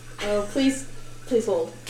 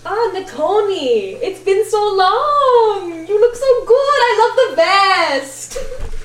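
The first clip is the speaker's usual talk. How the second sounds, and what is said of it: Character voice with an accent. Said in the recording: “the accent that you did for Evie”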